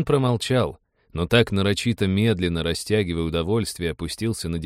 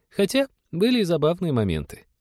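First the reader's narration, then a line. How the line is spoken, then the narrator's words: Giggling. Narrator (Russian): хихикнула Полина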